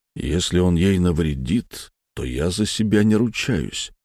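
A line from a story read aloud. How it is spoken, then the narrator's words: Quiet tense words. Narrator (Russian): тихо сказал Витязь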